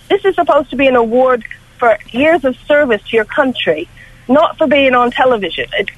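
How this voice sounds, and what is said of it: American accent. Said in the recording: “I'm picking up an accent ... You're from one of the colonies, aren't you? ... Yes, the big one.”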